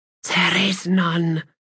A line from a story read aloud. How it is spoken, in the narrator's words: she whispered